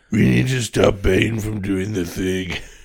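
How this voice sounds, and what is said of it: Batman character voice. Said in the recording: “do that Batman voice”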